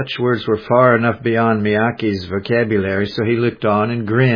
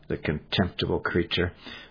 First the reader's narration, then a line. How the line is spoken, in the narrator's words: The captain only muttered